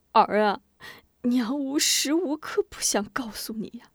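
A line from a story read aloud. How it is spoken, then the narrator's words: Sobbing. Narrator (Chinese): 母子顿时抱头大哭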